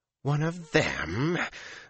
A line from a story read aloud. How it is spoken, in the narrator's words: Lanfear snarled